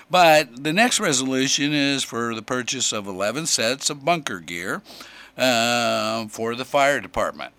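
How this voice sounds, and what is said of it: Hoarse, failing voice. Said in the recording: “this suddenly came on and I'm losing my voice.”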